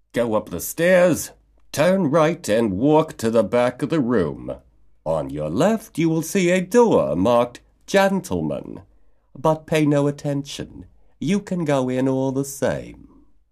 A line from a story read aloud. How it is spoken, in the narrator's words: The waiter was outraged and replied in a haughty tone